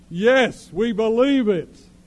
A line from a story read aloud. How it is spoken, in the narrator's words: the crowd shouted back at him